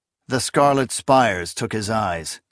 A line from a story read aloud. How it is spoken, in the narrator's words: Akamian said evenly